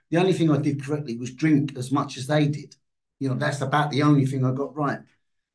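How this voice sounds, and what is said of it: London Cockney accent. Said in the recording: “a London accent ... a little Cockney from London”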